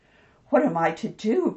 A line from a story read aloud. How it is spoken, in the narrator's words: cried Mrs